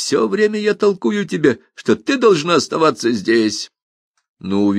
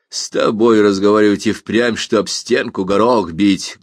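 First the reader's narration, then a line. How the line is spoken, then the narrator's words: Rude interruption. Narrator (Russian): грубо оборвал ее Николас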